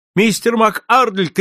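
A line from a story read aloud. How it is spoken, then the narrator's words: Shout. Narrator (Russian): крикнул я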